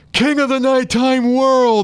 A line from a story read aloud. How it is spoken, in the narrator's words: they scream back at him